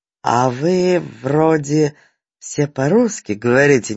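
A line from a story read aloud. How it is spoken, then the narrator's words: Distrustful drawl, old man. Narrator (Russian): недоверчиво протянул старик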